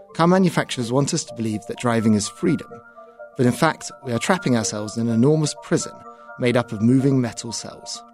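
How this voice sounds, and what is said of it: British Birmingham accent. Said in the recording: “you heard that accent. ... from Birmingham, UK”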